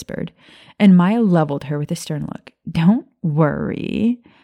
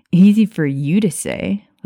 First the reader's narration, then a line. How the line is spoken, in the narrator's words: Lily chuckled